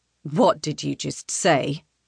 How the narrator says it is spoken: He snarls

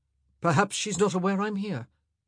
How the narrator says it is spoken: he said quickly

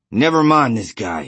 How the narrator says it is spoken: he said harshly

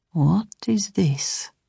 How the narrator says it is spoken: Saul murmured

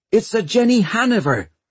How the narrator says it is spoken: shouted Hester

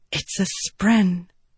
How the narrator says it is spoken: Shallan whispered

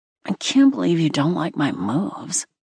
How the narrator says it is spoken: Wesley slurred, sounding offended

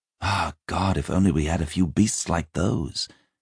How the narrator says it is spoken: Deonoth said wistfully

